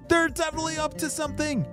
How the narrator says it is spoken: shouted E

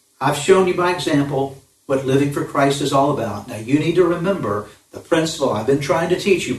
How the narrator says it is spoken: Paul says

